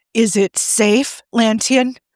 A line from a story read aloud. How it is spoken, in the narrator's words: asked nervously